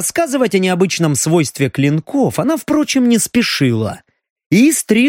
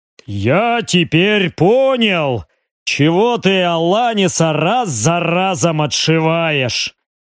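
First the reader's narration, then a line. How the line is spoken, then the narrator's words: Deep bass voice. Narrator (Russian): пробасил он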